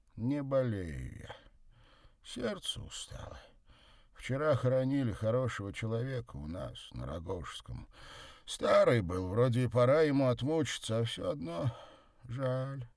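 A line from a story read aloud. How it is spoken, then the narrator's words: Sighing. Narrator (Russian): вздохнула она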